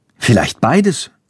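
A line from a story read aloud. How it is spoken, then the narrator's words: Plain. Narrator (German): sagt Hans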